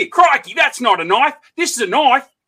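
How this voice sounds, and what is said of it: Australian accent, movie-character impression. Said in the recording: “I watch Crocodile Dundee once a month just to keep the accent.”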